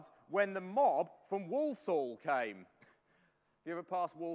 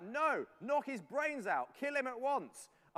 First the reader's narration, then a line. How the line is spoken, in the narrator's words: Many cried out